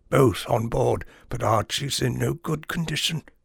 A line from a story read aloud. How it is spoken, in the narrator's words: whispered severely